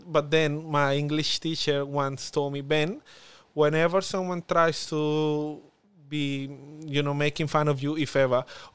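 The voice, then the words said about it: Strong Spanish accent. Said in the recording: “I have a strong accent, a Spanish accent.”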